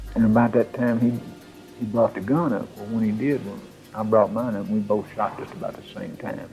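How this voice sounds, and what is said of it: Rural hick accent. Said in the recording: “That hick accent”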